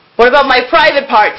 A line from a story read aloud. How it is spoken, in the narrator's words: Kelsey exclaimed